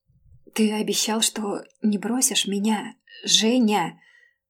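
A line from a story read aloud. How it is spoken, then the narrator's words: Strained, ashamed pleading. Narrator (Russian): Сгорая от стыда, я сдавленным голосом молила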